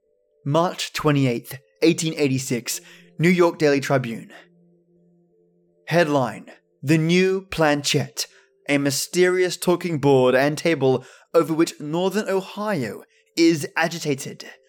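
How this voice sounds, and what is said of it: Australian accent. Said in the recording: “you'll have to hear my normal Aussie accent instead”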